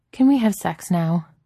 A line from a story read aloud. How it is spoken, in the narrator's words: Steve laughs